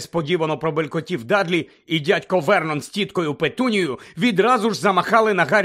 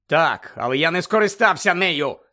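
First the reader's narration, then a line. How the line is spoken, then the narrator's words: Angry interruption. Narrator (Ukrainian): сердито перебив його Гаррі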